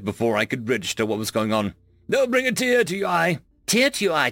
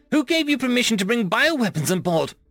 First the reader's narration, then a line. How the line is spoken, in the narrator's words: I screeched